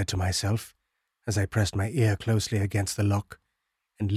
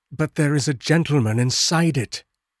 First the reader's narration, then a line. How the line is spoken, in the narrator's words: I interrupted impatiently